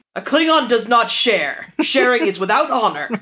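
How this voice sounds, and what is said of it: Imitates another person's voice. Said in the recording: “My best Michael Dorn impression.”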